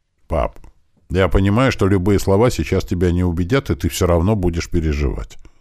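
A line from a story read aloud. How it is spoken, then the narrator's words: Calm, very serious promise. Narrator (Russian): спокойно и максимально серьезно пообещал я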